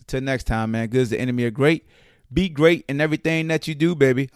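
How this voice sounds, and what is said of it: Hoarse voice. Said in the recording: “Oh, man, that was terrible. ... Man, I'm getting old. I'm hoarse.”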